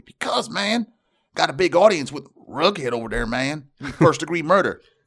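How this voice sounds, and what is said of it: Movie character voice, well done. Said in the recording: “You do a good Skank accent there.”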